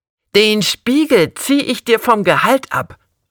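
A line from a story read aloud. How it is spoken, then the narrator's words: Leader calling out. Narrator (German): rief der Vorantragende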